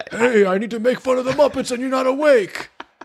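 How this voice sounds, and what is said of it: Cranky old Muppet character voice. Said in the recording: “that was even better than your other impression. That was good.”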